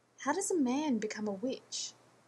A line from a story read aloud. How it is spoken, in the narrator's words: Rodney sighed